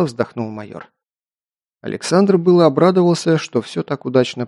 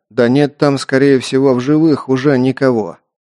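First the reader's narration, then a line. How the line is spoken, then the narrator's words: Gloomy. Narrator (Russian): мрачно заявил Древнев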